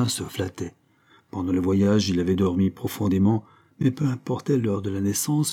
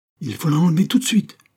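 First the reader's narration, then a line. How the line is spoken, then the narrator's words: Indignant exclamation. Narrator (French): s'écria Benoît, rouge d'indignation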